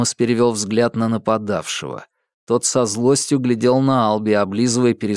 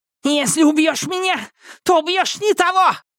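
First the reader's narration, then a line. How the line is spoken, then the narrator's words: Spluttering shriek. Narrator (Russian): взвизгнул Бен, брызгая слюной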